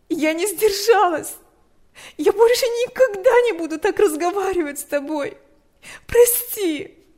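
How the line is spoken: Sobbing. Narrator (Russian): Она разрыдалась

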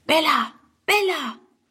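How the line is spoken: Calling in low voice. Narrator (German): ruft sie halblaut

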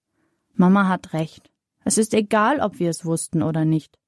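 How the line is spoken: Plain. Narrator (German): sagt Sonja

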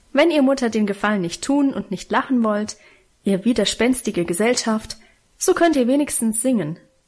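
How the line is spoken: Cheerful suggestion. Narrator (German): schlug fröhlich vor

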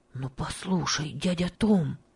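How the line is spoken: Mysterious voice. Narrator (Russian): сказал он таинственным голосом

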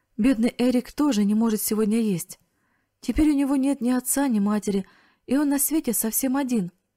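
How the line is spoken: Sobbing through tears. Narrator (Russian): Она разразилась громкими рыданиями и произнесла сквозь слезы

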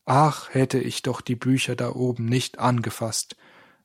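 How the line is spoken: Plain. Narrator (German): sagte Stefan

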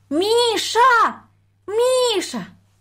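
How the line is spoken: Thin-voiced calling. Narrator (Russian): позвала она тоненьким голосом

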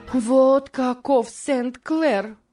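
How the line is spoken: Desperate exclamation. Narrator (Russian): воскликнула Морис

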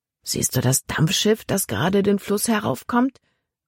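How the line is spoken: Murmured. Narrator (German): murmelte er

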